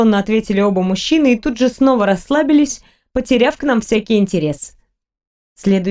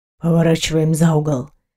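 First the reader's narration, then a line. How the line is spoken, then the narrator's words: Sudden whisper. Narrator (Russian): прошептал вдруг мастер пыток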